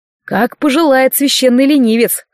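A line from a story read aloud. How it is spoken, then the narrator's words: Snorting. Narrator (Russian): хмыкнул проводник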